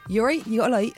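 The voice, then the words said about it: Put-on Portsmouth accent. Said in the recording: “can you do a Portsmouth accent? ... Then I'd just do a Portsmouth accent.”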